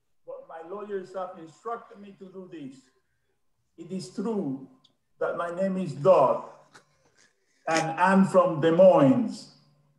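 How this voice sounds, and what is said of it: Put-on fake accent. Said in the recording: “This accent is fake.”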